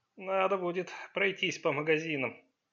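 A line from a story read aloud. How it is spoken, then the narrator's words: Sad confirmation. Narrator (Russian): печально подтвердил Сун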